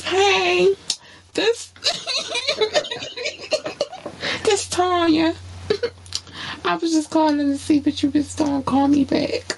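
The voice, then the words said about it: Put-on cute girly voice. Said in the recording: “putting on a cute voice.”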